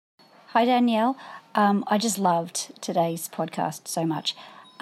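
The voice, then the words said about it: Australian accent. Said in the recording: “her Australian accent ... gives girlfriends a little international flair”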